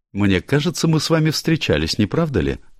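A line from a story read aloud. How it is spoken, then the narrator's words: Cheerful but unconvinced. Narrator (Russian): радостно заявила миссис Оливер, но без особой убежденности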